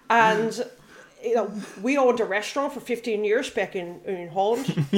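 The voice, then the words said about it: Dutch international school accent, slightly American. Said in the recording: “You're getting a bit American. ... a very good Dutch, like Dutch international school accent. It's very, very good.”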